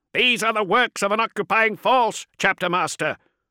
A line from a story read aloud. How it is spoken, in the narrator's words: the dreadnought said, every word from his vocalizers heavy with artificially intoned gravitas